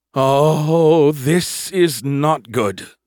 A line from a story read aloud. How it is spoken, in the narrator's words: Skippy groaned